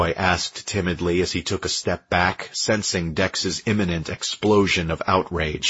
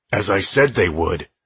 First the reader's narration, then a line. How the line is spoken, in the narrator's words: Dex snapped